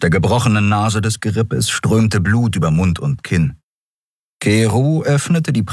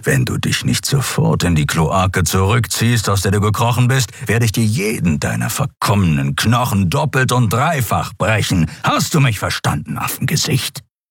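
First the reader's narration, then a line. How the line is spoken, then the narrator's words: Growled threat. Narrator (German): knurrte der Skriar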